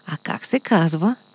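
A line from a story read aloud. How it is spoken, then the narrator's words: Whispered question. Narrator (Bulgarian): тихо го попитаха на ухо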